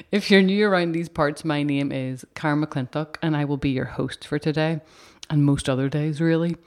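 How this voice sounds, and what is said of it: Raspy voice. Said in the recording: “My voice sounds a bit raspy today, doesn't it? Is it sexy?”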